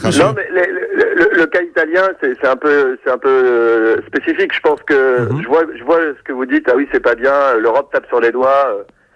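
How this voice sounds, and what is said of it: German accent speaking French. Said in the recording (French): “Français ? ... Non, je suis allemand. ... C'est parce que l'accent.”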